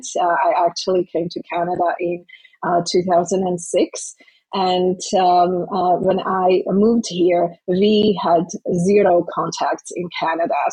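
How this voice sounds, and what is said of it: Non-native English accent. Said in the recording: “I'm an immigrant. You can hear it in my accent.”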